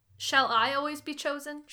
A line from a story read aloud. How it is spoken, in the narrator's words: She said bitterly